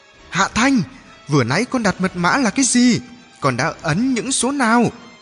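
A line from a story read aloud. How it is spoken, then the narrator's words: Shouting call. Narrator (Vietnamese): Anh hét gọi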